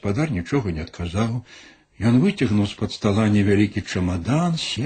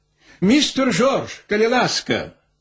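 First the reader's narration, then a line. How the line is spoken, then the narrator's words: Shout from behind door. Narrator (Russian): крикнул некто за дверима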